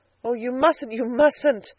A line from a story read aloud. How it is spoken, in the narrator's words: exclaimed Edna